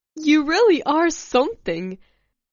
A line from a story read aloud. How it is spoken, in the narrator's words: laughing